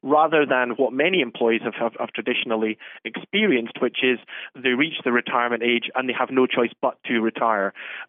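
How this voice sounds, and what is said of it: Scottish accent. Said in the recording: “our listeners can tell from your accent that you're not from Massachusetts. You're from Scotland, right?”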